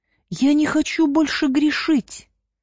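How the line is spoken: Tearful. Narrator (Russian): сквозь слезы произнесла Маргарита

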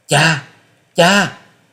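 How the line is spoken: Anguished scream. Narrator (Vietnamese): Tư Đồ Hồng thấy cha bị thương liền gào lên

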